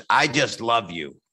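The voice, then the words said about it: Joan Rivers impression, Harvey Fierstein-like. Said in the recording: “I'm doing a really good impression of her ... I think I just did Harvey Fierstein ... not that far off in voice”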